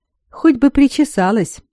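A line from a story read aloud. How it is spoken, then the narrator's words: Giggling. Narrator (Russian): хихикнула Иоланда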